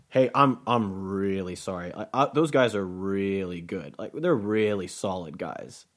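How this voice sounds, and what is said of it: Drawn-out, exaggerated imitation of another person. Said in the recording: “That's my Luke impression. ... he just loves to just draw things out and make it exaggerate them”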